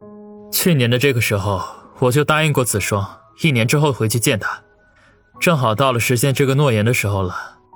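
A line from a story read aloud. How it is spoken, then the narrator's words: Deep, steady voice. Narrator (Chinese): 王宇深吸一口气，沉声地说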